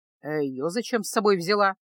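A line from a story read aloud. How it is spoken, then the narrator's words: Gruff grumbling. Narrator (Russian): грубовато проворчал синишаль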